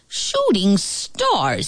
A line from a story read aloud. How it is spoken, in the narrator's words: he snapped